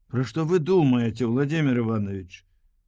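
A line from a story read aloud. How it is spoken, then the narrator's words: Smiling. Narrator (Belarusian): Саша усміхнулася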